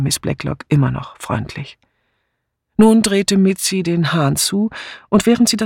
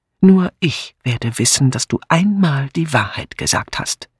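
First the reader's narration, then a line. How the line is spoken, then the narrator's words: Hissing. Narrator (German): zischte Miss Blacklock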